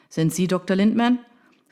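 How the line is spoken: Shouting over rain. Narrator (German): rief er ihr im tosenden Regen entgegen, um das Rufgewitter der Reporter zu übertönen

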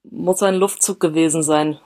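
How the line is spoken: Stammered. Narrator (German): stammelte er

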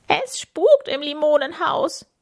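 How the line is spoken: Shrieking. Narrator (German): kreischt Camilla

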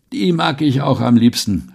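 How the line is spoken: Old man calling. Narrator (German): rief der alte Mann

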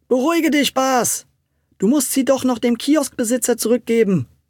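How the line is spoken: Call. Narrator (German): rief Tommy

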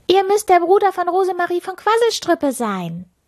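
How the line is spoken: Loud call from afar. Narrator (German): Schon von weitem rief sie laut

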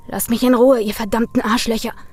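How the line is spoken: Angry hiss. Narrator (German): fauchte Brian

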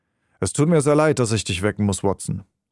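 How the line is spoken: Plain. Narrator (German): sagte er

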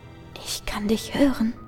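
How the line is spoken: Whispering voice. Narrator (German): flüstert die Stimme

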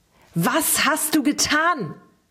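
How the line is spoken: Repeated shout. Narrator (German): schrie er erneut

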